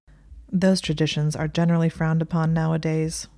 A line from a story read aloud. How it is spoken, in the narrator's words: Malfoy said flatly with a dour expression